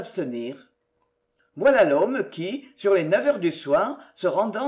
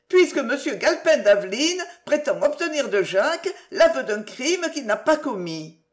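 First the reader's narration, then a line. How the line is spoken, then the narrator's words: Exclamation. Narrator (French): s'écria Mademoiselle Denise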